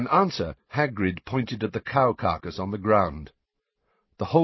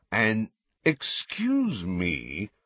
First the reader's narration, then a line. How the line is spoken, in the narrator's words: said Malfoy in a sneering voice